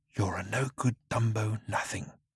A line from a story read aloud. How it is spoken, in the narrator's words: whispered the creature